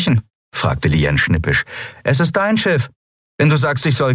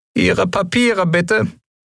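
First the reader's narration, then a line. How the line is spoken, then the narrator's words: Squeaky commanding voice. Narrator (German): piepste er befehlsgewohnt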